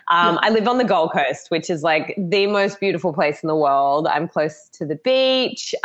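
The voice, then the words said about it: Australian accent. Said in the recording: “I'm obviously Australian, if no one has picked up the accent yet.”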